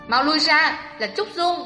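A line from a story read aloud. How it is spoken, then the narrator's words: Shouting call. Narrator (Vietnamese): Huyền Thiên Ngọc Nữ hét gọi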